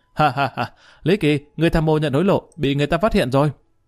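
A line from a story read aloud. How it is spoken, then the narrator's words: Mocking laughter. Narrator (Vietnamese): y đột nhiên bật cười ha ha, nói với Lý Kỳ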